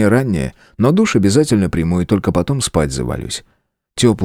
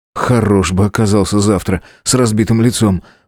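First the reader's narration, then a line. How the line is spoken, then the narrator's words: Muttered to himself. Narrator (Russian): буркнул сам себе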